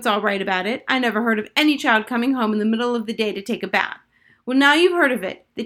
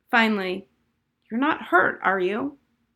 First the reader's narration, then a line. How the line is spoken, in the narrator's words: Harriet sighed